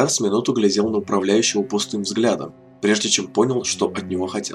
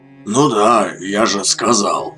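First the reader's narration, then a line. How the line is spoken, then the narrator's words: Reluctant hoarse wheeze. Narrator (Russian): просипел Морус, словно бы нехотя выговаривая слова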